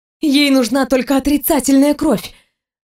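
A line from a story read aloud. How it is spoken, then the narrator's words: Breathed out. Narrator (Russian): выдохнула Саша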